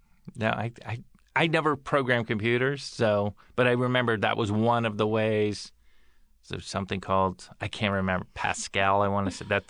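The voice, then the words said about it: Slightly scratchy voice. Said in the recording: “My voice is a little scratchy today.”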